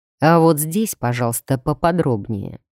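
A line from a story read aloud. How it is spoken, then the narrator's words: Grim demand. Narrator (Russian): мрачно потребовал Дроу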